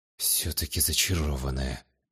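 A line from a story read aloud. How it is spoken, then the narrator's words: Muttered under breath. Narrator (Russian): пробормотал под нос Таосим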